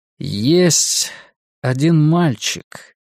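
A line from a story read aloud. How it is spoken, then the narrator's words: Slow. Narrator (Russian): медленно произнес Ларри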